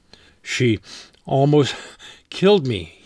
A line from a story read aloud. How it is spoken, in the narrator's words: he said as he squirmed